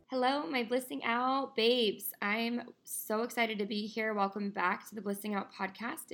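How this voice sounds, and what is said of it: Slightly raspy, tired voice. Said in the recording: “my voice is a little bit raspier today... my voice is just a little bit tired today”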